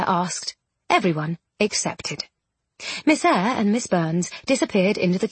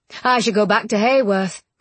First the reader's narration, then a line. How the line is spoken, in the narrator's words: Bramwell sighed